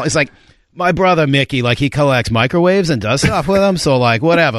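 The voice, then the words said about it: Boston tradesman accent impression. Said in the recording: “that's so good. That's such a good impression. ... You do that very well. ... I'm literally impersonating an exact person.”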